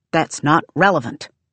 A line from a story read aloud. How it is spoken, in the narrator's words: Tonki snaps